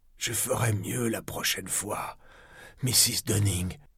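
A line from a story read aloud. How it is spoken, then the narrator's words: Hoarse voice. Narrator (French): ai-je articulé d'une voix rauque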